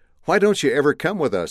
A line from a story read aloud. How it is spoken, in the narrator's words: the girl shouted